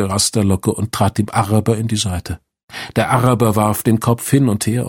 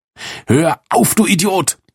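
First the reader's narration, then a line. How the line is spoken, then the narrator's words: Yelled. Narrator (German): brüllte Rasterlocke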